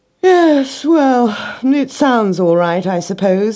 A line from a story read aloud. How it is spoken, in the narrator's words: he yawned